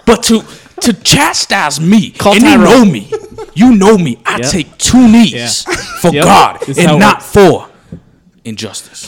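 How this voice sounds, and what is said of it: Ray Lewis impression. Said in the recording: “I want to thank Ray Lewis for stopping by. ... That was a great impersonation.”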